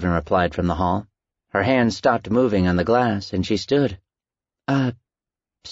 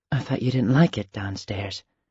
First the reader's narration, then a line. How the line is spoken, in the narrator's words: she whispered